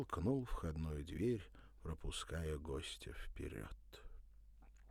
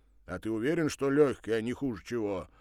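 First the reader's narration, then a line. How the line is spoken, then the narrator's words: Worried deep voice. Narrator (Russian): обеспокоенно пробасил Кузя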